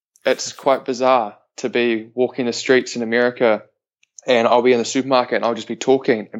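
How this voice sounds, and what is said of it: New Zealand accent. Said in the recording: “being a New Zealander ... people like the accent”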